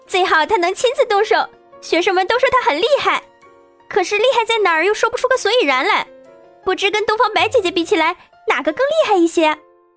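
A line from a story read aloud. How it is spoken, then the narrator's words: Cheerful giggling. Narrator (Chinese): 朵朵笑嘻嘻的道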